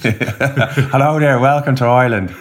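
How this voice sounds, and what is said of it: Put-on Irish accent. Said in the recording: “I'm going to do it in an Irish accent.”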